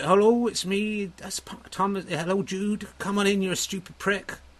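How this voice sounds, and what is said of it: Put-on Dorset accent. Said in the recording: “it should be Dorset. It's kind of where I grew up”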